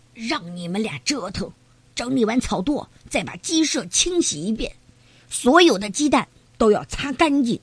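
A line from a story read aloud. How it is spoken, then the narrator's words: Hoarse voice. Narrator (Chinese): 皮迪克沙哑着嗓子说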